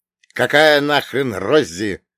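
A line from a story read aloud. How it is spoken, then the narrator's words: Barking. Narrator (Russian): рявкнул я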